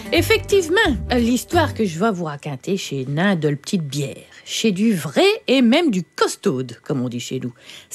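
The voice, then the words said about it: Northern French Picard accent. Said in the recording (French): “avec votre accent du schnorr”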